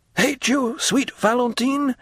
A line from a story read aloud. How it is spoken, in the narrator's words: exclaimed the young man